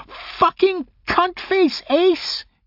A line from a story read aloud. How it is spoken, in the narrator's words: shrieked